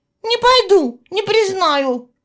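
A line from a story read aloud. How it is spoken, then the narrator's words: Stubborn tearful shouting. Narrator (Russian): кричала упрямица, заливаясь слезами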